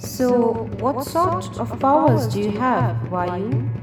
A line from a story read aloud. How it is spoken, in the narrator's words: asked the spectre calmly